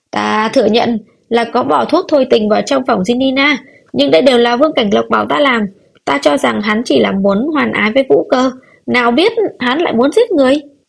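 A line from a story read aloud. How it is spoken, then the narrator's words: Shrill screaming. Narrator (Vietnamese): Lỗ trưởng quỹ quỳ xuống đất thét lên chói tai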